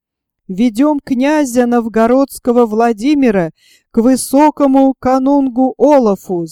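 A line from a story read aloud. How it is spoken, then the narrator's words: Jarls shouting together. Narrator (Russian): закричали ярлы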